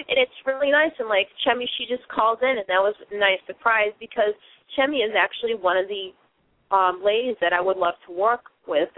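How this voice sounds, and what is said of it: Boston accent. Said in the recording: “I do have that Boston accent”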